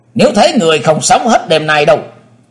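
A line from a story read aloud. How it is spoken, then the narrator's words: Alarmed loud shout. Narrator (Vietnamese): các linh biến sắc quát to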